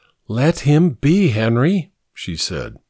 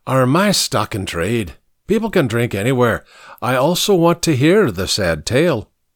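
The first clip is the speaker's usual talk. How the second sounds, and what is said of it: Irish accent, drawn-out words. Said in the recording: “his Irish accent turning it into a longer word”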